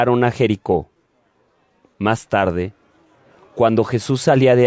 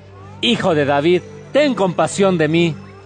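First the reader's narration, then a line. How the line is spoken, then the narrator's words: Shouting even louder. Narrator (Spanish): gritaba todavía más fuerte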